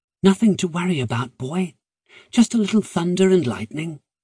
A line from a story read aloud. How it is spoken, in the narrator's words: she crooned softly